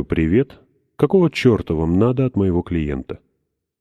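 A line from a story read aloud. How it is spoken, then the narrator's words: Calm. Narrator (Russian): спокойно так говорю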